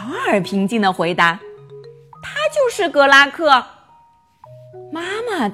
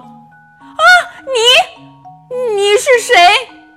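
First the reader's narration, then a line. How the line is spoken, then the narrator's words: Screaming, stammering. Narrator (Chinese): 妈妈发出一声尖叫，结结巴巴地说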